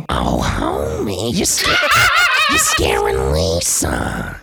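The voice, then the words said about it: Imitates Marge Simpson's voice. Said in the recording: “I can do a Marge Simpson.”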